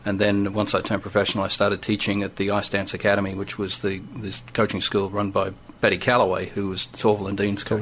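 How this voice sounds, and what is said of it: Australian accent, somewhat mixed. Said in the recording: “I'm Australian born, you probably guessed by the accent ... A bit sort of skewed in all sorts of countries.”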